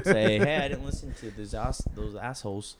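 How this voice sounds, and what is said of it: Put-on accent. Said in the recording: “I don't know why I sprung to an accent for that.”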